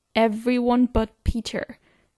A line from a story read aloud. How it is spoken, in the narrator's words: Derek growls